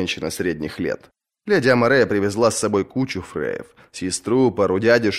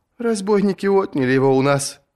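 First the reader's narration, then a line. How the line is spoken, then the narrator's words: Sobbing. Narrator (Russian): прорыдала Амарея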